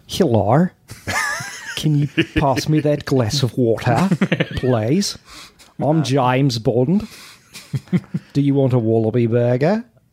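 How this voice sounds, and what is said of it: Over-the-top put-on Australian accent. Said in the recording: “My Australian accent is so over the top that it would have never been believable.”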